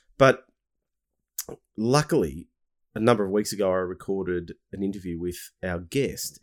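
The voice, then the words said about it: Somewhat funny-sounding voice. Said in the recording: “I had a bit of a cold... I'm still recovering. So my voice is a bit funny.”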